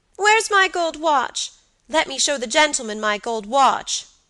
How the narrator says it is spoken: cried Georgie

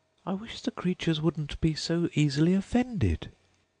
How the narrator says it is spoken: pleaded poor Alice in a piteous tone

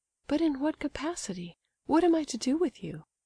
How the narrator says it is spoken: she asked in the same light tone

